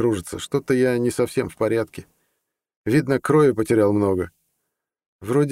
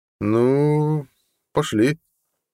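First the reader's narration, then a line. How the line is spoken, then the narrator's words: Young man drawling. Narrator (Russian): протянул парень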